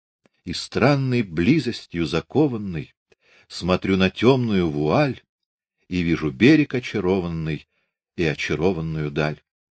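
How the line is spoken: Smiling whisper. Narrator (Russian): улыбаясь, шепнул

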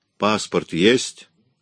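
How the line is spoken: Stern question. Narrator (Russian): строго спросил О'Тул

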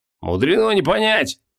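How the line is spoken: Snorting. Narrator (Russian): хмыкнул Хабокин

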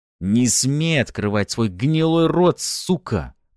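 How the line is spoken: Angry hiss. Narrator (Russian): продолжал шипеть Арманов

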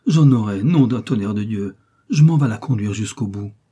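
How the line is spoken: Old man exclaiming. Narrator (French): s'écria le bonhomme

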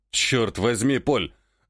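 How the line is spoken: Growled. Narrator (Russian): Рыкнул Челюсть

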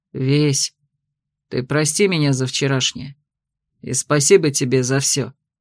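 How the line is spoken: Sudden quiet speech. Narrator (Russian): Дарс вдруг тихо сказал

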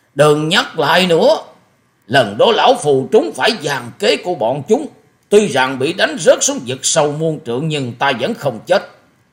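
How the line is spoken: Interrupting shout. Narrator (Vietnamese): Thất độc thần kiếm dục hét lên một tiếng ngắt lời của Hoa Sĩ Kiệt

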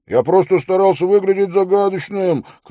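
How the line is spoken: Shouting after someone. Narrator (Russian): крикнул ему вслед Хорос

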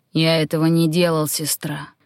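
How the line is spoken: Muffled, hollow reply. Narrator (Russian): глухо отозвался он

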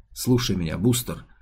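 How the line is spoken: Quiet. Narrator (Russian): негромко произнес Комеск

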